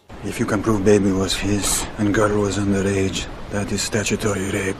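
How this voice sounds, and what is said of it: Stiff, careful Russian accent. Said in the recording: “Russian accent... Mortensen does a pretty creditable job here... It doesn't feel quite integrated. It's a little general... It's not that the sounds are off. They're all pretty good... It just feels a little stiff and a little careful.”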